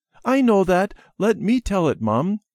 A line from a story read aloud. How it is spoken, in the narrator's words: said eagerly